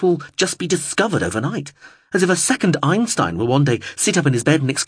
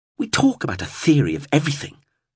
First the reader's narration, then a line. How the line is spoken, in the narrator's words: he spat